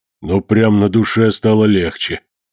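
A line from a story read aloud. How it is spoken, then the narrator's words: Sigh. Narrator (Russian): вздохнул Потехин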